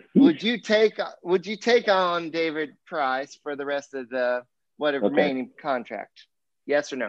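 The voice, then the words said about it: Alabama accent. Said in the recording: “That was an Alabama accent.”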